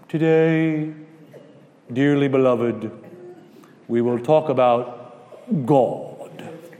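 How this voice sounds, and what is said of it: Mock solemn preacher pulpit voice. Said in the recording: “Why do they talk differently outside of the pulpit than they do in the pulpit? ... Why can't you talk as plain as a regular person up here? You put on the voice.”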